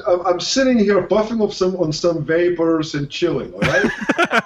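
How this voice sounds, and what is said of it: Put-on Russian accent. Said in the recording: “With that Russian accent.”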